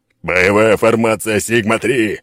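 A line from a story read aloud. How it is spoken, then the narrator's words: Yell over gunfire. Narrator (Russian): заорал, перекрикивая звуки выстрелов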